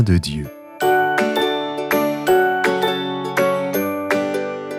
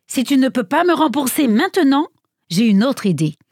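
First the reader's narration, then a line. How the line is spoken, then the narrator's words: Plain. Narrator (French): dit l'homme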